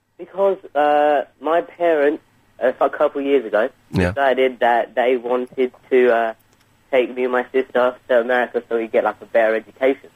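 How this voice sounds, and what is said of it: English accent. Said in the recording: “you got an English accent?”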